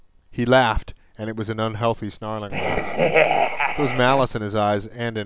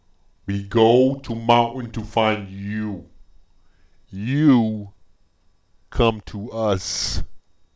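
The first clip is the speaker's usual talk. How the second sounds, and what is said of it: Harsh broken monster-like accent. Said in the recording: “spoke in broken words with a harsh Breck accent”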